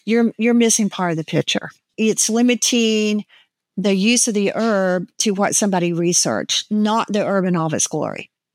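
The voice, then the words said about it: Southern American accent. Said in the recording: “that wonderful Southern accent. It's so beautiful to listen to.”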